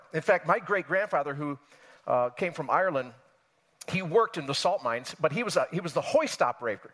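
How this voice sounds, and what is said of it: Western New York accent. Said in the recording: “I grew up in Western New York State... You can tell by my accent, of course. Rochester, New York area”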